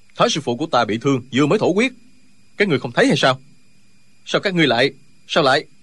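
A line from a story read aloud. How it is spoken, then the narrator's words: Worried exasperated shout. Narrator (Vietnamese): Tri khách đạo sĩ của phái Võ Đan là Linh Hư từ đầu vẫn lo lắng cho thương thế của thái sư phụ, lúc này không còn nhịn nổi nữa, quát lên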